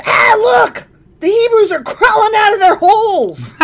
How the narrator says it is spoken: When the Philistines saw them coming, they shouted

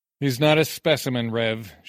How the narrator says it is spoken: she said

